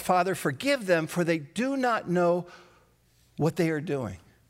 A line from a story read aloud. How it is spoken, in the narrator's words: Jesus cries out